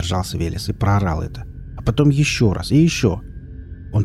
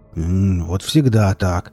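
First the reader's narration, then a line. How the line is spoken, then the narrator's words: Grumbling. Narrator (Russian): проворчал он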